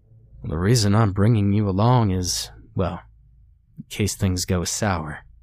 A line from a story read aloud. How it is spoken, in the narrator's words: he said solemnly